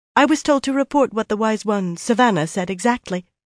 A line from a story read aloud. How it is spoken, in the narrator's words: she added quickly